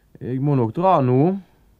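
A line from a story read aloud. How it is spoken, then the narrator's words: Shouted slyly. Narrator (Norwegian): ropte Anders lurt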